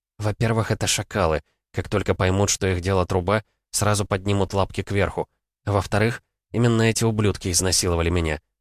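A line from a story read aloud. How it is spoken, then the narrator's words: Calm. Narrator (Russian): спокойно произнесла я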